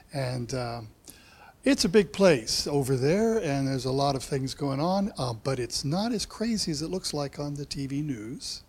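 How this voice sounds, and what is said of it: American accent. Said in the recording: “I have this accent because I grew up in America”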